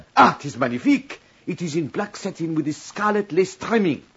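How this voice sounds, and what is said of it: Exaggerated excitable French accent. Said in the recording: “an excitable Frenchman with an excruciating accent”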